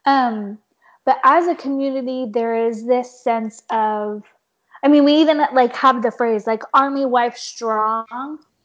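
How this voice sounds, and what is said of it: Hoarse, fading voice. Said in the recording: “losing my voice a little bit”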